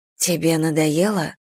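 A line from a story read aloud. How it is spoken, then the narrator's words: Whispered question. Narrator (Russian): шепотом спросила Мэгги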